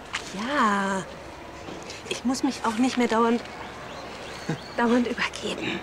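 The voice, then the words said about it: Whispering. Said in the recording (German): “Warum flüsterst du?”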